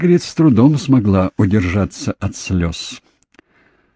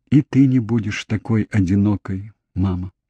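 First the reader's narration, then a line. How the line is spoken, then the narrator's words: Child's whisper. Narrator (Russian): Мальчик прошептал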